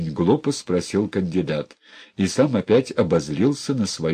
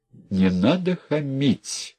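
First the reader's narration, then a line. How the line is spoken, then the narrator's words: Tired, slow. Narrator (Russian): устала и медленно сказала Кэт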